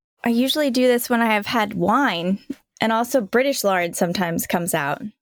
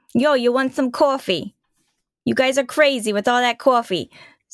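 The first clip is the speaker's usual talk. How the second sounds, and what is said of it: Put-on New York accent. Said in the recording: “a New York accent that you bust out every once in a while ... do the show outro in a New York accent”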